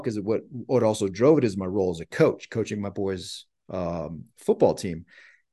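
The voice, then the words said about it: Emotional, voice close to breaking. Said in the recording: “I'm getting emotional now”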